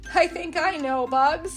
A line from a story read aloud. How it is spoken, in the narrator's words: chuckled